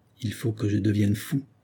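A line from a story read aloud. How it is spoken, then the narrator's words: Muttered quietly to himself. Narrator (French): se dit-il tout bas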